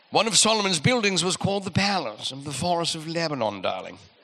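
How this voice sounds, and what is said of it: Put-on British accent. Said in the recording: “Probably sounds better in a British accent.”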